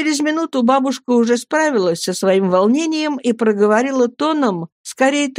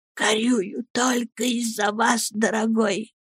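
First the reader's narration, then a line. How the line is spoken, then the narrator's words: Tearful whisper. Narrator (Russian): плача, стала шептать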